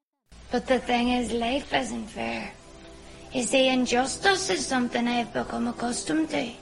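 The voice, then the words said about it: Strong Northern Irish accent. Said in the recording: “there is the accent. 这部剧给你的第一印象肯定是非常上头的北爱尔兰口音。”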